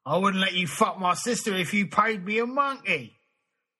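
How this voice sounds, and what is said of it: Put-on Cockney accent. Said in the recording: “Accent Tour of the United Kingdom. Here we go through every accent ... Cockney.”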